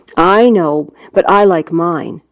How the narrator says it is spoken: Nova said, a mite sharply, I thought

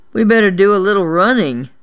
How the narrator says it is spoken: Buddy moaned

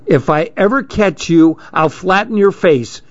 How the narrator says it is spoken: she hollered

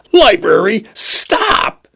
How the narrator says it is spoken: he screamed

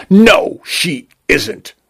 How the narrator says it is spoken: Vacuole spat

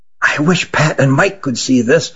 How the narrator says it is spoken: whispered Nathan to his brother

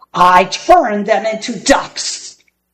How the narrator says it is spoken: bellowed Gasazi

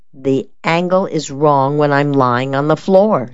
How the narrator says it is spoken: she replied

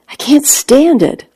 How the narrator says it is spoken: I cried out

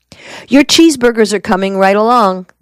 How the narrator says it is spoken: promised

